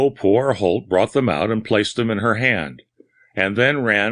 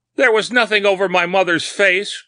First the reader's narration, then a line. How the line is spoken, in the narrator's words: cried the lady